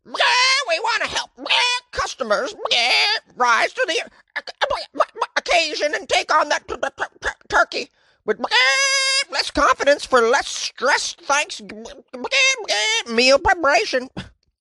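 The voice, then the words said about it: Ad read in a chicken voice. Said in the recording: “Yeah, that was terrible. That was if a chicken was talking. ... It's hard to do a read in a chicken voice.”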